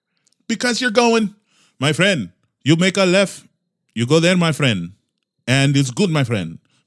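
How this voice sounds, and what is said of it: Put-on Spanish accent. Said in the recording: “he's speaking in a Spanish accent”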